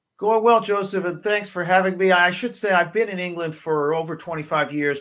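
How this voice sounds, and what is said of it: Canadian (southern Ontario) accent. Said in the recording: “the accent, I put it somewhere in southern Ontario”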